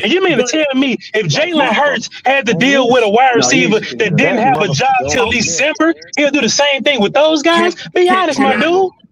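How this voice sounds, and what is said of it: Screaming, loud heated speech. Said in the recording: “sorry for screaming”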